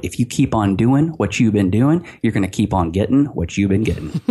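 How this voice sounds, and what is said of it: Imitates another person's voice. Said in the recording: “I'm working on my Zig impression. ... Yeah, you're doing a good job.”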